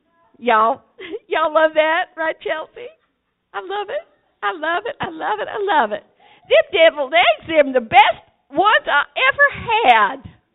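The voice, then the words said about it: Put-on Southern US accent. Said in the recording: “I gotta get my Southern on here ... I'm working on my accent here, and some of my Southern preaching stuff ... I gotta talk like they do”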